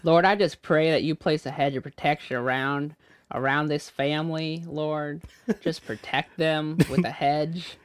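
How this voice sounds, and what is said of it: Bad put-on Southern accent. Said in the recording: “a really bad Southern accent... Just Southern there. Baptist. You just went full SBC.”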